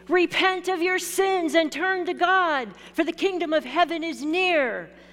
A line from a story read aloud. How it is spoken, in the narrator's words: John the Baptist impatiently shouted